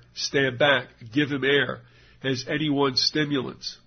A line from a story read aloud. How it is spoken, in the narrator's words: cries were heard